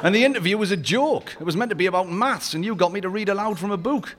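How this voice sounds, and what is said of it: Strong regional accent, unusual vowels. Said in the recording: “such a funny little accent ... Such vowel mutilation ... the pluralization of the second person singular”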